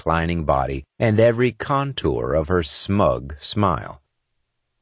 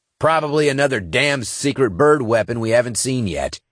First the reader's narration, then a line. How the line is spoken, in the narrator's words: he growled